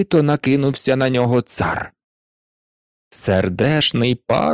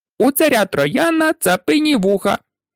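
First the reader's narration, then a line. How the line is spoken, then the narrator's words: Squeaky pipe, human voice. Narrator (Ukrainian): мила сопілка пропищала людським голосом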